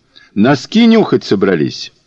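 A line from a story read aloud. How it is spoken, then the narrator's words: Loud, cheerful, encouraging. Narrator (Russian): Он говорил громко и бодро, подбадривая ее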